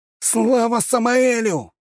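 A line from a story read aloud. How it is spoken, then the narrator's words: Young man shouting. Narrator (Russian): выкрикнул парень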